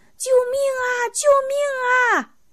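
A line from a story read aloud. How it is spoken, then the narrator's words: Frightened loud cries. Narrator (Chinese): 蚂蚁吓慌了手脚，高声喊着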